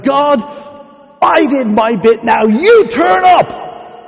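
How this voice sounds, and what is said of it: Shouting loudly. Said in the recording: “Sorry for shouting”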